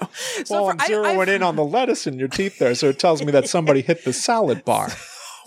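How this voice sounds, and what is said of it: Imitates another person's voice. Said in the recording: “my Dennis Miller impression ... It's very good”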